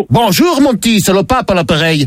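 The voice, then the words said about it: Put-on Belgian French accent. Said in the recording (French): “tu te dis pourquoi cet accent ? C'est parce que je suis le pape Léon de Bruxelles.”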